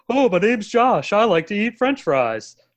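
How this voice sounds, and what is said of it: Exaggerated impersonation of own voice. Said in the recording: “That's how my wife and I impersonate each other... That sounds more like Josh.”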